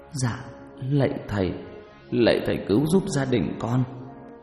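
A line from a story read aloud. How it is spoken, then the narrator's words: Trembling stammer. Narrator (Vietnamese): Bác Đăng chỉ biết ngồi run rẩy, lắp bắp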